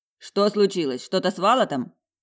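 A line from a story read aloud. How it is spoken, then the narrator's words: Shouted in chorus. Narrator (Russian): Хором крикнули они по-фински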